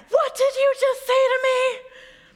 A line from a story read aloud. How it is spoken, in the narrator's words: And the cyclist yells again